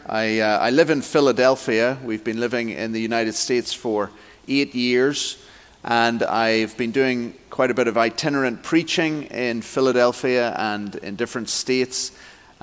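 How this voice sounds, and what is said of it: Non-local foreign accent. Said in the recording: “you can hear from my accent, I'm not from around here”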